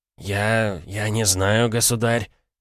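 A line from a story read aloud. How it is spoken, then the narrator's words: Pale, mumbling. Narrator (Russian): промямлил побледневший Шумахер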